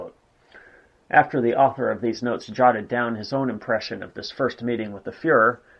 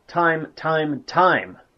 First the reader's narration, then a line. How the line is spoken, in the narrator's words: Addressing Goering directly, he exclaimed